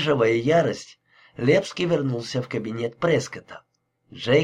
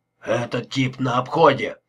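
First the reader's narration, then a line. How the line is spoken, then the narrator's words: Grumbling. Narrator (Russian): проворчал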